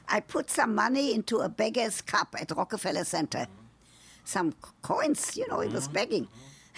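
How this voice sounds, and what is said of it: Speaks with a distinctive accent. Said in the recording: “because of my accent”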